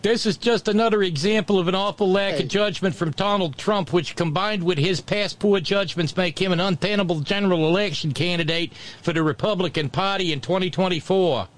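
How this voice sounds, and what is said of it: Poor put-on New Jersey accent. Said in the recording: “terrible New Jersey accent”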